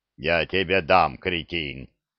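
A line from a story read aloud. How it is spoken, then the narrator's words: Booming deep bass. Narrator (Russian): прогудел кто-то густым басом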